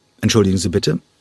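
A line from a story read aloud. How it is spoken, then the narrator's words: Plain. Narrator (German): sagte Sol Hurek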